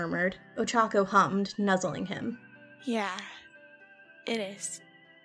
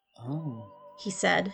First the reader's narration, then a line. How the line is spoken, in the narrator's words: his voice a whisper